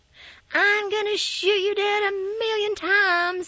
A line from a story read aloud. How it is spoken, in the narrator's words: shouted